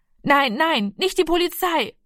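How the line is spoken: Calling out. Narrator (German): rief er

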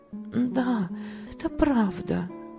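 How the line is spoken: Sad agreement. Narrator (Russian): грустно согласилась Ева

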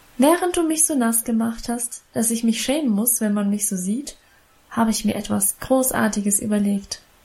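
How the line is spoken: Plain. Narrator (German): sagte sie

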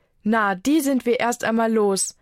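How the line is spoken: Plain. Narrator (German): sagt Anna

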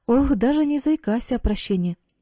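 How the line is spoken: Cheerful answer. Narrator (Russian): весело ответил Эрик

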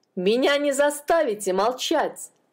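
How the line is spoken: Shouting. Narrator (Russian): кричал Пен

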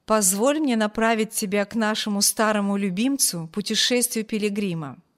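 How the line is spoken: Plain. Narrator (Russian): ответил капитан

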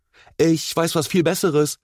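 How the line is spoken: Energetic call. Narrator (German): rief Enzo energisch

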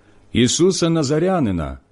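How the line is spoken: Plain. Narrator (Ukrainian): відповіли ті

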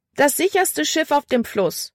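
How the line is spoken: Calling out. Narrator (German): rief sie

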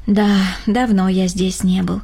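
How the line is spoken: Sighing. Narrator (Russian): вздохнул Рома

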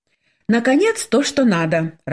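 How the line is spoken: Joyful exclamation. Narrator (Russian): радостно воскликнула Светлана

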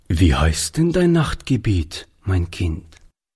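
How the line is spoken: Plain. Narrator (German): fragte Oliver

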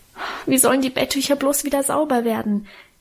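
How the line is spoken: Wailing. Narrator (German): jammerte ich

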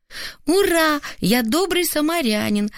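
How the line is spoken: Joyful shout, child. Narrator (Russian): радостно крикнул сын

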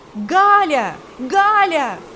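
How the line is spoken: Shouted. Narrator (Russian): закричал

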